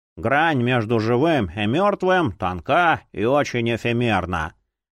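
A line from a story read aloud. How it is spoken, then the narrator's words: Bored reading aloud. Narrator (Russian): скучающим тоном зачитывал Эдвин Груит-Плёсинг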